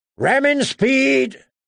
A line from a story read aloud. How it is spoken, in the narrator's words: Davis shouted